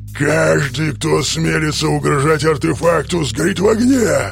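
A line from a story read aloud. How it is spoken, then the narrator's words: Shadow roaring. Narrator (Russian): Проревела тень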